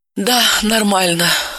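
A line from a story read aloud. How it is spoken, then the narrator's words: Sigh. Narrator (Russian): вздохнула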